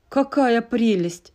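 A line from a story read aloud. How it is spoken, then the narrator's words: Mocking. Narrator (Russian): насмешливо произнес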